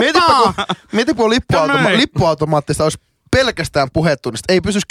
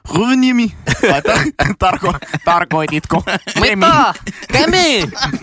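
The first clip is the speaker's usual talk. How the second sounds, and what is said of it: Put-on strong foreign accent. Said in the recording (Finnish): “sanonut sillä niin tosi murteella.”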